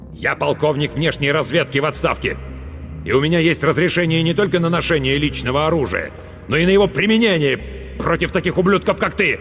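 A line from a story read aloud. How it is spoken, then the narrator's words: Loud bark. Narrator (Russian): громко рявкнул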